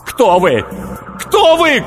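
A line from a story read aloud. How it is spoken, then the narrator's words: Shouting. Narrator (Russian): кричал Сергей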